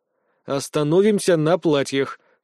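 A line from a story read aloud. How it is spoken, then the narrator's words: Cold reply. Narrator (Russian): холодно ответил я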